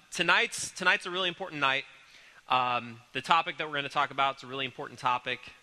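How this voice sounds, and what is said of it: Congested voice with a cold. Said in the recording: “I have a little bit of a cold... I'm congested and kind of coughing a little bit”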